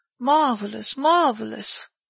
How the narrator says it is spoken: exclaimed Ganimard

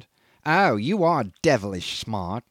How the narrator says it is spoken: he sneered

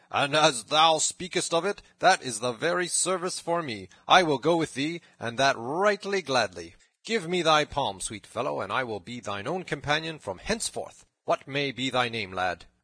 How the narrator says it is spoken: cried the cook right heartily

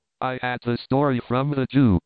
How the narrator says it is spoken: he cried

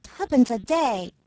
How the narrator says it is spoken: exclaimed Spriggs with scorn

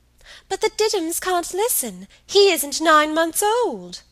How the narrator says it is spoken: pleaded

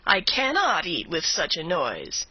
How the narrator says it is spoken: exclaiming

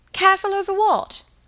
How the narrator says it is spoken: cried Helen

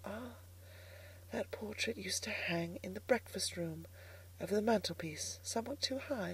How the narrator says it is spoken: I whispered to myself

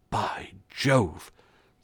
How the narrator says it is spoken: said the constable, in an awed tone of voice

